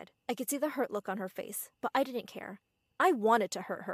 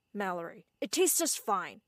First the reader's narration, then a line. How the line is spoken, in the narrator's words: Dad said sternly